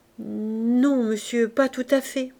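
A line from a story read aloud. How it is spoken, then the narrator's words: Stammering, very upset. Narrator (French): balbutia Gervaise, très contrariée d'entendre parler de ça devant les Lorilleux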